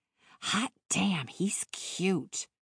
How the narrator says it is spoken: She muttered

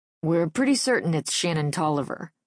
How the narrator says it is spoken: Larry says

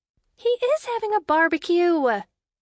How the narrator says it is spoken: Emma exclaimed, as if she'd heard this accusation before

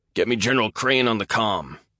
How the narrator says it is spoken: barked as the walls shuddered

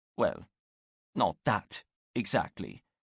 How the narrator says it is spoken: muttered to himself

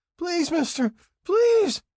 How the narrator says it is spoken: Crawford cried

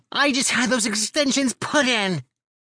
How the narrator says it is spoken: She shrieks

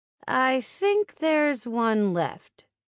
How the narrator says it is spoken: my dad said

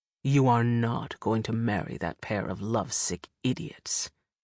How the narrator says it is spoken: Herrick sneered

